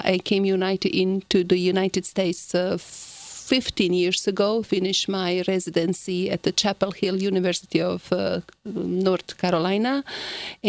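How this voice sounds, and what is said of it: Heavy Croatian accent. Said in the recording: “my heavy accent. ... it is Croatia, former Yugoslavia.”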